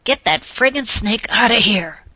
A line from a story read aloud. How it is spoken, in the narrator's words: he hissed